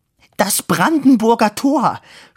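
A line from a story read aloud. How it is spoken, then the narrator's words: Woman's tearful shout. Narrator (German): schrie die dicke Dame, und Tränen füllten ihre Augen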